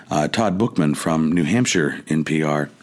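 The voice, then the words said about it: Quiet NPR-style radio voice. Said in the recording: “I should use my NPR voice ... you have to talk in our quieter ... voices”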